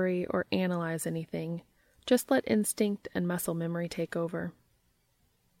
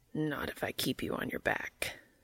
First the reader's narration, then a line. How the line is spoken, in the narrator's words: Cas growled